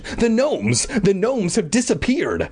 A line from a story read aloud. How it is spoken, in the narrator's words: I exclaimed